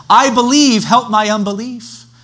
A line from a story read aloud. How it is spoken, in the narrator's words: the father of the child cried out and said